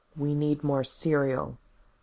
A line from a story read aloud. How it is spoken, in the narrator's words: said in a careful voice